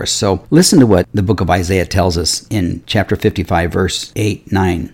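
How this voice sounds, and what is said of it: Raspy voice from a cold. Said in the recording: “apologize for my voice a little bit today because I'm just getting over a head cold and I've got a little raspy throat”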